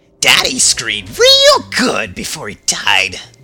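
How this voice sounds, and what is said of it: Imitates a video game character's voice. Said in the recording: “I can probably do, Pigma ... that didn't come out very well”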